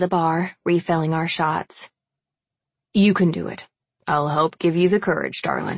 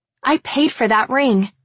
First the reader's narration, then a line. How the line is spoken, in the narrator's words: I blurt out, the liquor kicking in